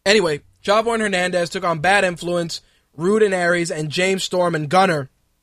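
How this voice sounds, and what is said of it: Hoarse, strained voice. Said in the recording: “I need a drink of this Monster Energy because I'm kind of losing my voice.”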